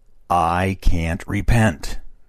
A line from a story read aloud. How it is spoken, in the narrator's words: said he, with a sort of determined and despairing accent, and so loudly as to startle us all